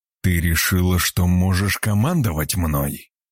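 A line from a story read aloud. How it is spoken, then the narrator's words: Growl. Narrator (Russian): прорычал Влад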